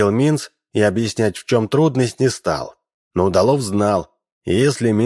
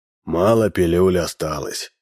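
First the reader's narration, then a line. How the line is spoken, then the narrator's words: Sighing. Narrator (Russian): вздохнул Минц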